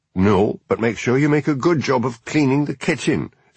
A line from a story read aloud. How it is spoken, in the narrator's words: snapped Paul